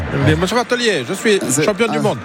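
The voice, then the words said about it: Put-on foreign accent. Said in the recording (French): “pas avec cet accent”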